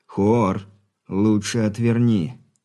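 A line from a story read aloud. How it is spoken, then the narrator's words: Through gritted teeth. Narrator (Russian): сквозь зубы процедил Алексей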